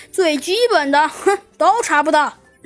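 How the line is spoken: With a smile. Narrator (Chinese): 弗兰熊笑了笑，说道

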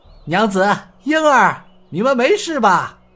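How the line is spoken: Shouting. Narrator (Chinese): 洪金宝向屋内喊道

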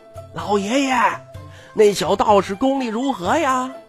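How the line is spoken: Straining shout. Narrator (Chinese): 徐凤年费劲地喊道

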